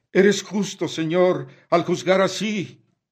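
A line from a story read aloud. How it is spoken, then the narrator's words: Grateful exclamations from sinners. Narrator (Spanish): los pecadores del infierno prorrumpen en exclamaciones de gratitud al Señor y dicen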